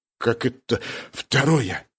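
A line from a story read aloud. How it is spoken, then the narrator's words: Hoarse question. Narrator (Russian): хрипло спросил Джувон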